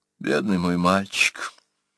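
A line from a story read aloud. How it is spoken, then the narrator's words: Whisper. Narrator (Russian): прошептала княгиня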